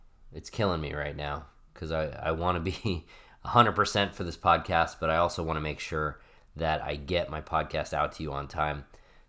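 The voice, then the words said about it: Congested, sick-sounding voice. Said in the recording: “Can you tell that I have a cold? ... I'm recording this with a little bit of a cold, so you'll hear that in my voice today.”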